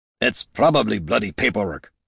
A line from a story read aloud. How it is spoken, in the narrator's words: grumbled Gorm